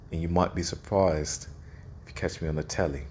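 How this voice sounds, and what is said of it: Put-on British accent. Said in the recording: “But me British accent ain't too bad”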